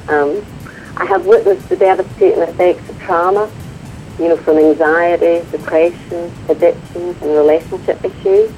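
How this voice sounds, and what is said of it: Northern Irish accent. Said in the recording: “that's my accent, Northern Ireland”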